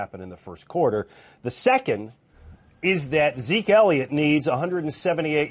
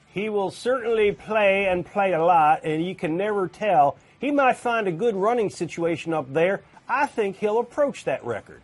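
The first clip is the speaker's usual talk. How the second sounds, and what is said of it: Poor put-on Texas twang. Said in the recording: “Lousy impersonation ... terrible ... Terrible Texas twang.”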